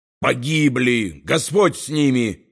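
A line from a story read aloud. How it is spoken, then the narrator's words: Furious bark. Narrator (Russian): яростно рявкнул поэт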